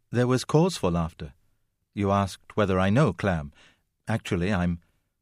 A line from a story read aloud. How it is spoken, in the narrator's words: said in a conciliatory tone